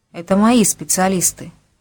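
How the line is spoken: Uncertain. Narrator (Russian): неуверенно сказал Тарасов

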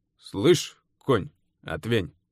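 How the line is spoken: Rude tone. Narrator (Russian): Получилось грубо

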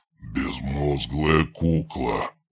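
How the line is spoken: Master growling. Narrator (Russian): прорычал хозяин

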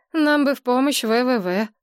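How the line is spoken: Sigh. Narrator (Russian): вздохнула Надежда Николаевна

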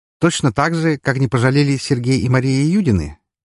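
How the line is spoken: Carefree question. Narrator (Russian): неожиданно спросил я его все тем же беззаботным тоном

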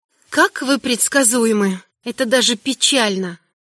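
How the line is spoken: Quiet female voice. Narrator (Russian): Сказала негромко

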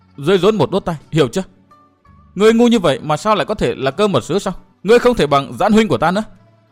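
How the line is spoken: Flustered, harsh. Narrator (Vietnamese): Mặt Tuyết Lan đỏ như gấc chín, nàng cao có gằn giọng nói

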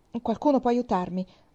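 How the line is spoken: Desperate, exhausted tone. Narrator (Italian): il capitano Wentworth pronunciò in tono disperato, come se avesse perduto tutte le sue forze

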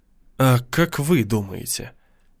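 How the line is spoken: Sighing. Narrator (Russian): Дэниел вздохнул

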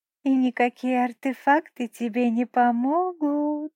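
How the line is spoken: Sweet sing-song voice. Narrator (Russian): Ангельским голоском пропела Нинель

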